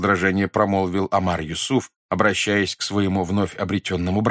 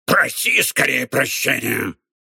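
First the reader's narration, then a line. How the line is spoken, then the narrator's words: Hissed. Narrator (Russian): прошипел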